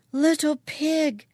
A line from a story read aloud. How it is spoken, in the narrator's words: screamed the woman, her eyes wild and unseeing